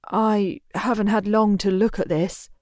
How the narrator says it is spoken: he starts, hesitantly

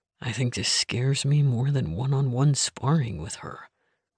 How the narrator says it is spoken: Link said, lowering his voice

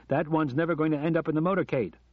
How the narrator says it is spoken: shouted Johnny

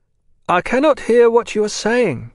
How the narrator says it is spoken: she called out

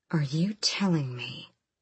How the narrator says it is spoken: she said too quietly, fire flickering in her gut, dancing along her tongue

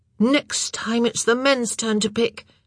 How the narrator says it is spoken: Oliver grumbled

